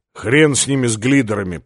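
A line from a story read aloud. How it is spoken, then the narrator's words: Grumbling. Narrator (Russian): проворчал полубой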